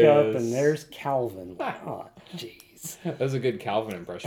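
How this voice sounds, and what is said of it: Usual voice. Nothing is said of it.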